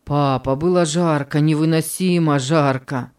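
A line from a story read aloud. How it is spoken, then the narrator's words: Breathless exhale. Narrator (Russian): Выдохнул Давид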